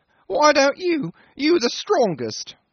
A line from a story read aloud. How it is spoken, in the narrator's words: whined the little engineer